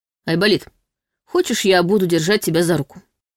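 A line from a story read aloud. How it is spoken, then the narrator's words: Mock-serious offer. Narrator (Russian): Нарочито серьезным тоном предложил Ваня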